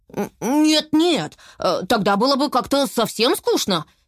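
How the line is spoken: Hurried reassurance. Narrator (Russian): торопливо заверил их Берти

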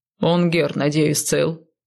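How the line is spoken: Snort. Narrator (Russian): хмыкнул Сай

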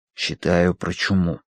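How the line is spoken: Whispered answer. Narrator (Russian): ответил Данворти шепотом

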